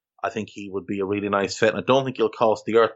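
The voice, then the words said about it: Irish accent from Navan. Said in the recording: “It's my accent. It does not allow me to fully enunciate people's names properly... If you come from Navan, you understand it.”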